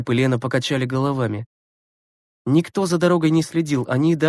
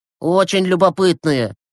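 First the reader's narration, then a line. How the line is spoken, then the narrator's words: Grumbled. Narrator (Russian): проворчал Глеб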